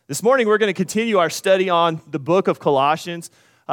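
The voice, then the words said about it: Strained, worn-out voice. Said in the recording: “apologize for my voice. ... I yelled for about two hours straight. And then we came and we sang for over an hour last night, and I think I may have blown a gasket. So, if I started a coughing fit”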